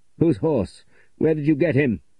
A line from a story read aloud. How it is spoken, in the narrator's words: cried the young man